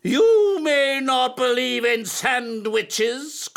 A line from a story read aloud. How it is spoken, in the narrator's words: cried his teacher